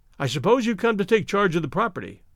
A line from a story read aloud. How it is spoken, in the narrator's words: I blurted